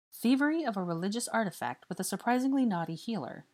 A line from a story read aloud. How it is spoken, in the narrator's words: said Draco